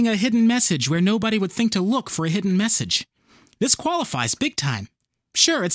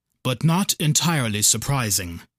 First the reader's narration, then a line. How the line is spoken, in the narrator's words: sighed